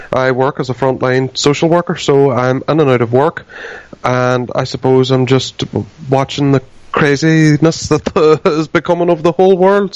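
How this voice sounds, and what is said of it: Irish accent. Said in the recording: “the accent is from Ireland”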